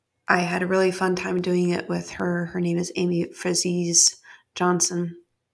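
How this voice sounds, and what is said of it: Scratchy voice. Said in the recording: “My voice is a little scratchy right now.”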